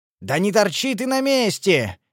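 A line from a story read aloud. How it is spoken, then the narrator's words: Yelled. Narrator (Russian): заорал я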